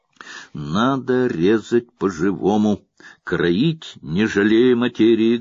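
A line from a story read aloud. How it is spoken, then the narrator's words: Plain. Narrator (Russian): говорит он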